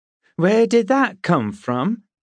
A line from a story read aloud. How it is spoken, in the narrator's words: Bronwyn cried